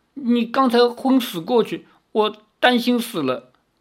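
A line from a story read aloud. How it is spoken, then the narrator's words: Choked, sobbing. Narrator (Chinese): 赵灵儿哽咽着说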